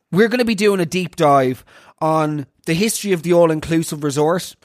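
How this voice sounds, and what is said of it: Nasal, congested voice. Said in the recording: “I've got some form of like some sort of virus, so forgive me if my voice sounds a little bit nasally”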